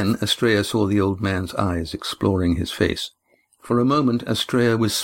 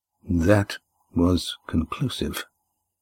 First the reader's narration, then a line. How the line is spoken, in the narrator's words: said the old man quietly